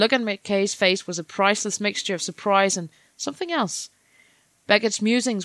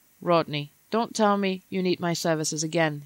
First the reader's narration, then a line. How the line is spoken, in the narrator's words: he joked in a low voice